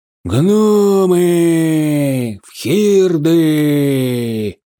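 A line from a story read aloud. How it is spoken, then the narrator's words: Thunderous booming voice. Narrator (Russian): прогремел грозовым раскатом голос Прыгскока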